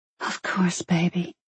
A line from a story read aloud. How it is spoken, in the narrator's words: she breathed